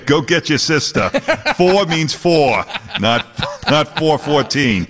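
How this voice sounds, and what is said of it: Boston accent, annoyed dad voice. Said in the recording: “you can pull out that Boston accent anytime ... when Dad gets ... ticked ... It comes out, right?”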